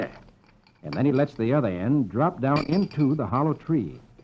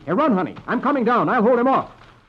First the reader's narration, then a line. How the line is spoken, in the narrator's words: Flash shouts